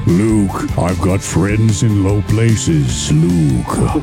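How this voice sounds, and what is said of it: Mock Darth Vader voice mixed with country singer. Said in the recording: “Garth Vader”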